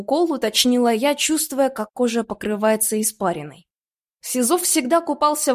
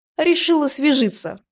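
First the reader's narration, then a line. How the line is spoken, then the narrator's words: Man's scoffing grunt. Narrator (Russian): хмыкнул почти бывший муж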